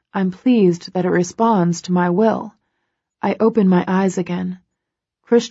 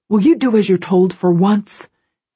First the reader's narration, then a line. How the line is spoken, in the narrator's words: He snaps, exasperated